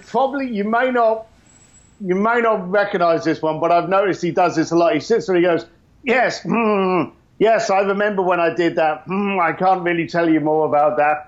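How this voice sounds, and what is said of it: Imitates another person's voice. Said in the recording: “celebrity impersonation ... Richard Branson”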